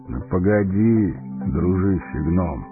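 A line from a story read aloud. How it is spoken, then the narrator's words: Calm old man. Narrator (Russian): спокойно проговорил старец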